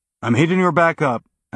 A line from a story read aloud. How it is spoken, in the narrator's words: Alex said